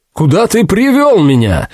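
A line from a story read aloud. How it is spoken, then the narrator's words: Shout. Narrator (Russian): закричал Амеро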